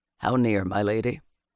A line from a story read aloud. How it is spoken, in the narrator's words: Bannock asked her softly